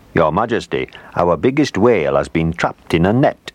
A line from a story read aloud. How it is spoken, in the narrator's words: he said